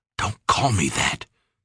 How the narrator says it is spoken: Peter whispered

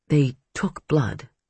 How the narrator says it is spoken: Hannah murmured

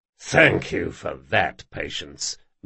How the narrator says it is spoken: growled Jean

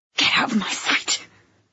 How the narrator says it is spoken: I hissed

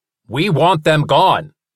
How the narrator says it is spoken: he growled

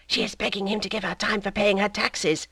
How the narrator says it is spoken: Madame Tuvache whispered in a low voice

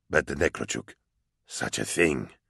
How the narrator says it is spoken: Shongard hissed

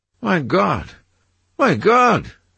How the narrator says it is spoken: he cried

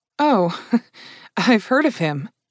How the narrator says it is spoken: Kat said with a small laugh

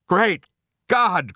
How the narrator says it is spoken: cried Starbuck

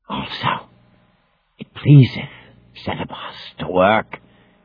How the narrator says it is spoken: hissed the unseen Caliban's voice

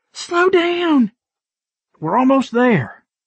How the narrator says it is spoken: she yelled out

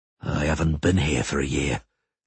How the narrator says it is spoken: the Witcher muttered

